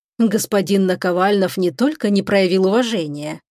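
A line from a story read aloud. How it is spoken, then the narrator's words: Soft interjection. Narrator (Russian): мягко вклинился в разговор Шипрув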